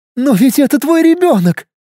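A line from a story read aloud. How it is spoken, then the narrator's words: Sobbing. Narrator (Russian): рыдала Инна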